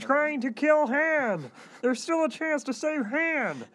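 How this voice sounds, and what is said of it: Imitates a puppet character's voice. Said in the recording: “that's George Lucas, not Kermit the Frog ... are you imitating George Lucas or Kermit the Frog”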